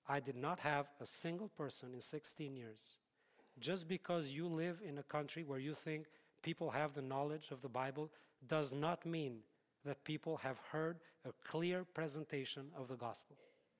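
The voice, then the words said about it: Speaks with a foreign accent. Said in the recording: “I have an accent”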